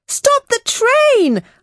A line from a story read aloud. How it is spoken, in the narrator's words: screamed